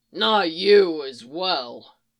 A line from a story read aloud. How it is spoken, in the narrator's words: groaned in dismay